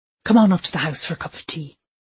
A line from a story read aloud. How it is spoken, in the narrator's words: he said warmly